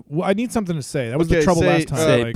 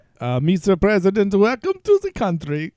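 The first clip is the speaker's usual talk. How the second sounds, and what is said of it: Attempted Russian accent, sounds mixed. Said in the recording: “Let's hear Russian. ... Is this Germisha? ... Germisha. ... Indirussia?”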